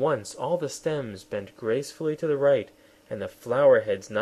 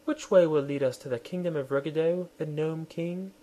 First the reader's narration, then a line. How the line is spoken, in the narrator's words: she said in her sweet, gentle voice